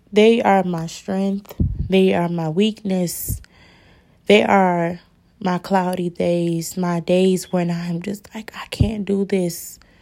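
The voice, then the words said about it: Emotional, tearful voice. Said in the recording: “I'm getting a little emotional right now”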